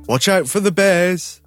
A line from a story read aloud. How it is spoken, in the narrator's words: His father called out